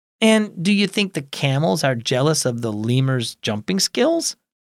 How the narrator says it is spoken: Anna laughed

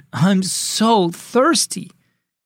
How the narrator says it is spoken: She groaned

